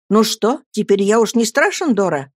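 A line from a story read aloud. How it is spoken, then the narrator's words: Tender question. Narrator (Russian): нежно спросил я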